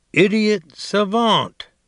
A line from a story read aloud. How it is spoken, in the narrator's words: he say loudly